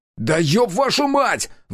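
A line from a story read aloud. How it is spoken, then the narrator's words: Roar. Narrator (Russian): взревел я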